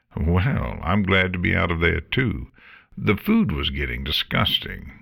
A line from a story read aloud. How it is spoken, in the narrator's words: Morta chuckled